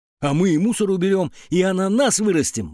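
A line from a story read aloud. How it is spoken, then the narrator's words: Exclaiming. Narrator (Russian): воскликнул Петя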